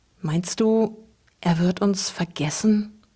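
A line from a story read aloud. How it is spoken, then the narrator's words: Barely audible whisper. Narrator (German): wisperte Luke kaum hörbar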